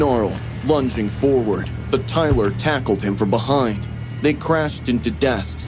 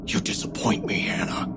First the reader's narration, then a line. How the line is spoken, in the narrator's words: he whispered, so softly only I could hear